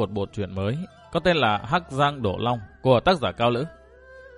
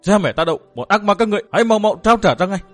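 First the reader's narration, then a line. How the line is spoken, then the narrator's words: Young man shouting loudly. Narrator (Vietnamese): Chàng thiếu niên coi lại hét lớn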